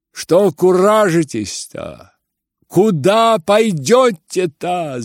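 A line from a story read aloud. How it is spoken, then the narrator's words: Shouted. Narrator (Russian): закричал Ганя из окна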